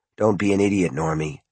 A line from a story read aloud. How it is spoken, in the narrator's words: his father whispered